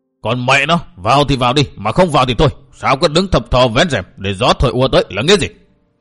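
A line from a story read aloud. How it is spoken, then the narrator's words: Table bang, angry shout. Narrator (Vietnamese): Đột nhiên nghe đánh binh một tiếng, bên trong có người vô bàn cất tiếng quát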